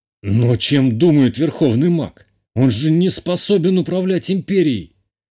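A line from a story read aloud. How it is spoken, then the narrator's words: Indignant exclamation. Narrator (Russian): воскликнул мой отец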